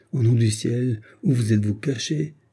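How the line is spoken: Impatient exclamation. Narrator (French): s'écria Paul avec impatience

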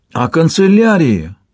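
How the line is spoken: Carried-away exclamation. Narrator (Russian): воскликнул Вальпат, увлекшись рассказом о своем путешествии

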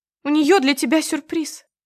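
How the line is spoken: Upset young woman's voice. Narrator (Russian): расстроенным голосом напоминает девушка

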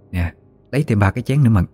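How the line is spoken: Soft. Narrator (Vietnamese): Bà khẽ nói với bóng lưng của Mận

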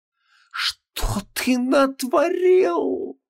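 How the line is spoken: Groan. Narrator (Russian): застонал носящий желтую маску

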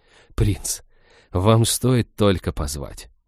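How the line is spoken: Barely audible. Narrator (Russian): девушки губы едва-едва слышно произнесли

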